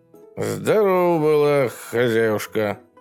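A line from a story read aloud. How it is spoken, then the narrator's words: Polite rumble. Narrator (Russian): вежливо прогудел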